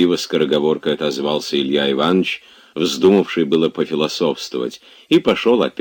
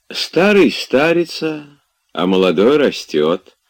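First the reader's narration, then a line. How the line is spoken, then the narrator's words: Sleepy voice from corner. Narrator (Russian): сонным голосом кто-то сказал из угла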